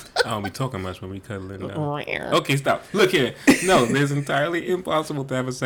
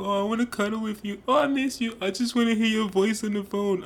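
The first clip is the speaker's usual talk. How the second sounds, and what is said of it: Goofy lovey-dovey voice. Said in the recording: “is that the voice that you sound like when we're trying to be cuddly? ... You don't sound that goofy when we're cuddling.”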